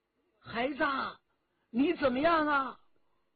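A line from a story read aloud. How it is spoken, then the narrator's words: Loud cry. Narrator (Chinese): 关明梅大叫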